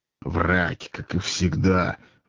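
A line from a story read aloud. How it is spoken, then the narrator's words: Grumbling. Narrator (Russian): ворчал Азазелла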